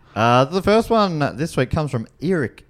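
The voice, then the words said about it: Put-on New Zealand accent. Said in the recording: “I don't know why I said that with a New Zealand accent.”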